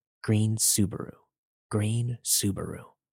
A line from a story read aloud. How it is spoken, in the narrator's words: he heard the man keep whispering